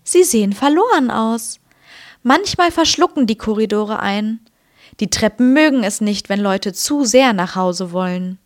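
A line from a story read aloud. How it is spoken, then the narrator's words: Gentle. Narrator (German): sagte sanft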